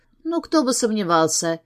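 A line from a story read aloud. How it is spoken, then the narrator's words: Trembling voice. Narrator (Russian): говорит она подрагивающим голосом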